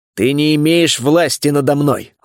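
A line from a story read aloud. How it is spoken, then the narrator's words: Forceful growl. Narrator (Russian): рыкнул я, вкладывая всю свою волю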